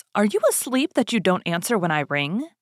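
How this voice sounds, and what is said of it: Sharp scolding voice. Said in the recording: “in a sharp voice”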